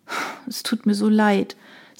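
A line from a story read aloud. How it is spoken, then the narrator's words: Sighing. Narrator (German): seufzte Emilia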